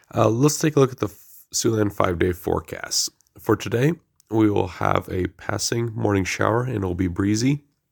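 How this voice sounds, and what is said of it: Congested voice from a cold. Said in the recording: “Pardon me as I have a cold today, so bear with me.”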